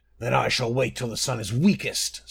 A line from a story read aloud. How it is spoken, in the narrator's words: snarled the skin changer